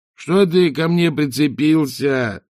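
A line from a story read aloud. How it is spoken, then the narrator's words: Moaning. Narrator (Russian): простонал он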